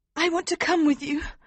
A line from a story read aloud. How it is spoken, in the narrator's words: Princess Flavia said desperately